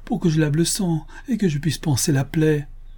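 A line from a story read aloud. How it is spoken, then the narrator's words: Desperate mother's cry. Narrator (French): s'écria la pauvre mère au désespoir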